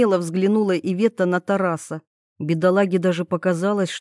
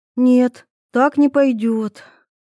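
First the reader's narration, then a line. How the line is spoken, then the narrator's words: Sighing. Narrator (Russian): вздохнула девушка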